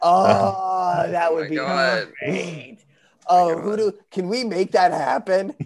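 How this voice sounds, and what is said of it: Usual voice. Nothing is said of it.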